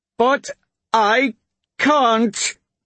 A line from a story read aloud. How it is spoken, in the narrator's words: Suri nearly screamed